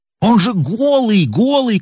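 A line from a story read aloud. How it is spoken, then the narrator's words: Shouting man. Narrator (Russian): кричал фотограф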